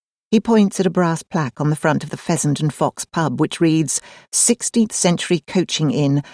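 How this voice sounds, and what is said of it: Usual voice. Nothing is said of it.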